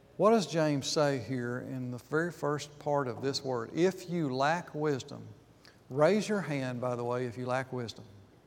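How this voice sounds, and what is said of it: Speaks with a noticeable accent. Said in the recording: “I know sometimes my accent gets in the way, but I said lack, L-A-C-K, not like, L-I-K-E.”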